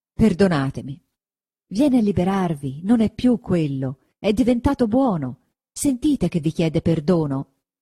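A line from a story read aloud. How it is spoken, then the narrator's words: Exclaimed. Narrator (Italian): esclamò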